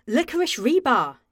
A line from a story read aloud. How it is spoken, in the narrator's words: he exclaimed